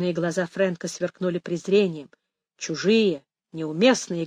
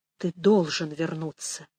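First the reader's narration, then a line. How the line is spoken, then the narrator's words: Barely audible. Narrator (Russian): еле слышно выговорил Пэдди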